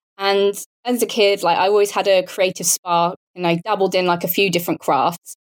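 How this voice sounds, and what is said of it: British accent. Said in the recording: “as you can probably tell from my accent, I'm British. So I grew up near Portsmouth, which is on the south coast of the UK.”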